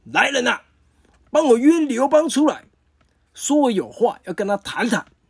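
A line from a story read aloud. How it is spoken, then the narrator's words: Calling out. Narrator (Chinese): 他喊了一声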